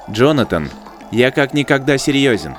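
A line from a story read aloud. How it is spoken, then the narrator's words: Plain. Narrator (Russian): ответил дрон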